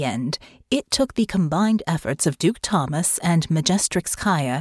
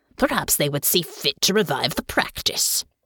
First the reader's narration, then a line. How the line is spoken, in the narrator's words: he snarled